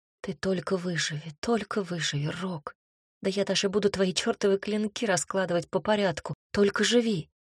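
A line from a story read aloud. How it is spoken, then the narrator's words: Whispering. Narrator (Russian): шептала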